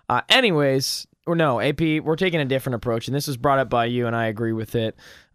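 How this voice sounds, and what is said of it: Slightly hoarse voice, coughing. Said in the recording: “why my voice is a little hoarse, slash I'm coughing a lot.”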